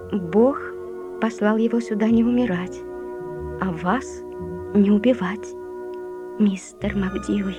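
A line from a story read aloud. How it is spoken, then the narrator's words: Gentle. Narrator (Russian): Лори мягко ответила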